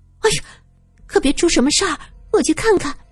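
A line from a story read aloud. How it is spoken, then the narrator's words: Startled, tearful, hurried. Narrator (Chinese): 吓得埋头哭泣的郝小姐浑身一个激灵，她急忙说道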